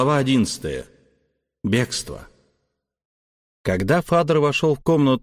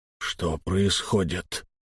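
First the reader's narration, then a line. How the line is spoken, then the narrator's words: Strained, forced out. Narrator (Russian): выдавил он из себя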